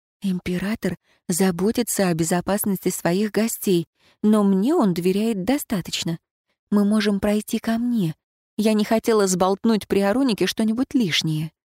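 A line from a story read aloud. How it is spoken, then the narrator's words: Whisper. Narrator (Russian): прошептала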